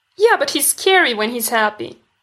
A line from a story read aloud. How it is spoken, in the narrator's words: Stiles whines